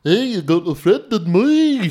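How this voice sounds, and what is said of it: Imitates another person's singing voice. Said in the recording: “Let me do my real impression ... I don't even know what the fuck that was supposed to be ... there's no discernible...”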